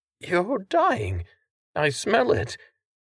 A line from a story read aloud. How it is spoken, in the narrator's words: his voice hitching again